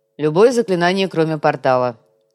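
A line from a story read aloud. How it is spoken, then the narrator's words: Amused snort. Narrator (Russian): хмыкнул Гуга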